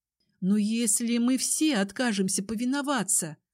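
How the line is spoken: Muttering. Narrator (Russian): пробормотала я

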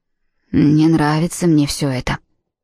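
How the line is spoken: Muttered under breath. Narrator (Russian): пробормотав себе под нос

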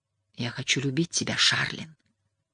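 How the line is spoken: Passionate whisper. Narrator (Russian): страстно прошептал он

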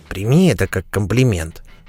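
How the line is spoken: Quiet whisper. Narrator (Russian): тихо шепнул Кобл Катебри

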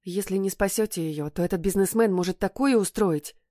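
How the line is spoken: Rapid chatter. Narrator (Russian): тараторила медсестра

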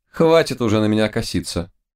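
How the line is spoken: Mocking tone. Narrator (Russian): насмешливо сказала

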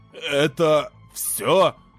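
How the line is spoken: Wheezing question. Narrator (Russian): хрипя спросил Рейн

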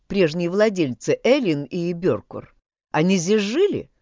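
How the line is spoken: Plain. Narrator (Russian): спросил Мэтью

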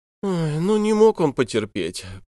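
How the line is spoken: Moaning young woman. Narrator (Russian): простонала длинноухая девушка

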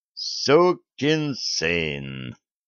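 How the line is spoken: Slow, deliberate. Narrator (Russian): медленно произнес

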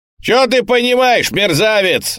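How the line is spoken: Shouted after someone. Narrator (Russian): закричал Штирлиц вдогонку

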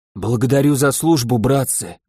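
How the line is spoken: Hoarse. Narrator (Russian): говорю хрипло

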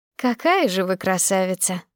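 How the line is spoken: Sighing. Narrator (Russian): Вздохнула медсестра

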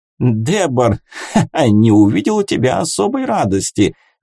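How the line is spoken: Laughing. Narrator (Russian): засмеялся

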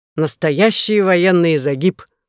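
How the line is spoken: Laughing. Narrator (Russian): сказал он, смеясь

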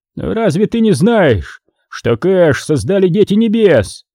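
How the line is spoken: Shouted. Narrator (Russian): закричал Изри

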